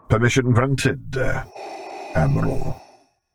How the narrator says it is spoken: he rumbled lowly

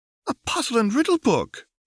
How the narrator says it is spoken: she squeaked

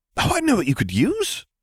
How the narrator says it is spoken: said Harry excitedly

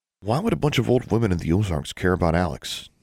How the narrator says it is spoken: David asked

